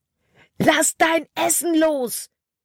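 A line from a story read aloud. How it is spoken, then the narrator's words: Screamed. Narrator (German): schrie Caleb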